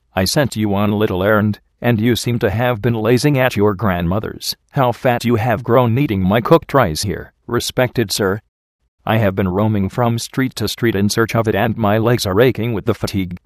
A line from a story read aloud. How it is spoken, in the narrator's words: replied Aziza